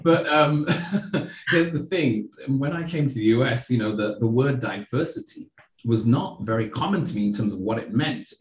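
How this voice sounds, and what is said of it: Non-American accent. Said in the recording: “you can probably tell from my accent that I'm not originally from the US.”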